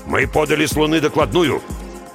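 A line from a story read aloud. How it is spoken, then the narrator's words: Stern reminder. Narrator (Russian): напомнил Базунов строго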